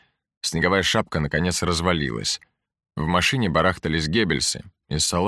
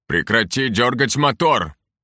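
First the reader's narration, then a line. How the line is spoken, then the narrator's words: Straining shout. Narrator (Russian): кричал, тоже стараясь пробраться к дверцам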